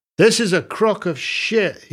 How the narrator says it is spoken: he shouted into the mic

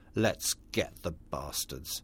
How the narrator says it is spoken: he spat

